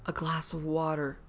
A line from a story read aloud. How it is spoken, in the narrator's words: said faintly